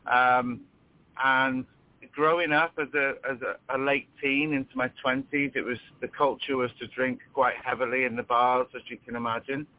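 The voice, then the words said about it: British accent. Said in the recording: “I'm from the UK, if you gather with my accent.”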